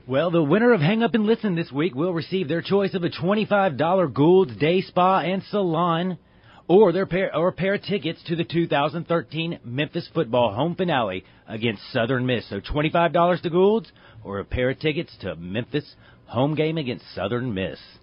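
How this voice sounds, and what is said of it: Game show announcer voice. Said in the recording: “That's a good game show voice from ... is this a game show? I'm going to start seeing Bob Barker walk out of there.”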